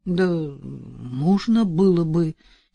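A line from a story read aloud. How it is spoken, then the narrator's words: Uncertain mumble. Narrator (Russian): неуверенно пробормотал Арсений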